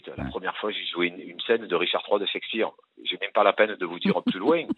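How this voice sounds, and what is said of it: French regional accent. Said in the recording (French): “je me suis pris mon accent dans la gueule”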